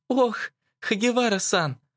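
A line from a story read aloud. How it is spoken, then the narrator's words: Joyful breathy exclamation. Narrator (Russian): радостно выдохнула Мэй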